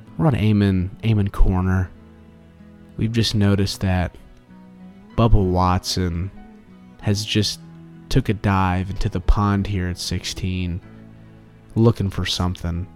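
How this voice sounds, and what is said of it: Quiet golf commentary, Scottish accent. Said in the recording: “we gotta talk really quietly ... Scottish accent”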